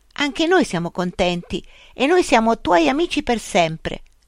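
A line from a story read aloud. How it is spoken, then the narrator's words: Exclaimed. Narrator (Italian): Luca esclamò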